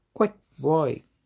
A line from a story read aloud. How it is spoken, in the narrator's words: Granny barked at me